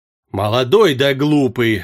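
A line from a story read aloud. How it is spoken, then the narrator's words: Grumbling from behind. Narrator (Russian): ворчал за спиной Феса Сугутур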